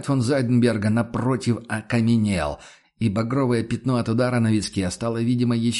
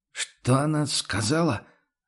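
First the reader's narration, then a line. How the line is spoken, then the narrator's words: Asked again, bewildered innkeeper. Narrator (Russian): растерянно переспросил трактирщик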